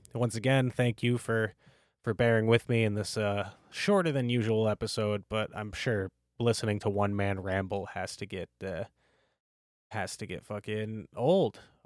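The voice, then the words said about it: Slightly hoarse voice. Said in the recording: “My throat's starting to get a little hoarse from talking by myself.”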